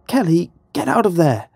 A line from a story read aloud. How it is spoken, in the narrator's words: Sarah cried out